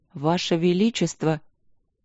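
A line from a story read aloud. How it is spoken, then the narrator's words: Trembling voice. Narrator (Russian): заговорил дрожащим голосом мэр Дори Трайтис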